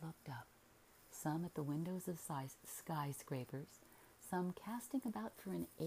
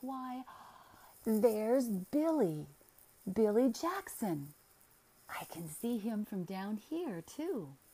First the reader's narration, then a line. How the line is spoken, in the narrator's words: Miss Leeson cried with her little gay laugh